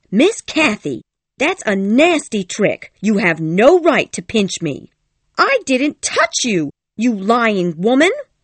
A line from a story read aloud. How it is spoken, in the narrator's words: cried Kathy, her ears all red with rage